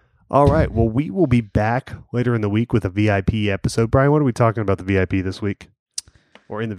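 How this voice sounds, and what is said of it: Usual voice. Nothing is said of it.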